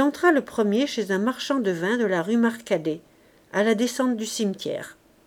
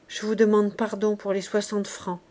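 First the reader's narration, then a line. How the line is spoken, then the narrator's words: Laundress murmuring. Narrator (French): murmura enfin la blanchisseuse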